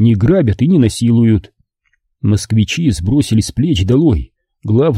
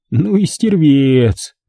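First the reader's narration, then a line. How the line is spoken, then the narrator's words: Miserable, sung in crying voice. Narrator (Russian): Епифан затосковал, сник, съежил жалобно физиономию, пропел плачущим голосом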